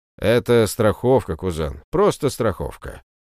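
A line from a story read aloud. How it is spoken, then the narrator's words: Grim smirk. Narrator (Russian): мрачно усмехнулся Мишаня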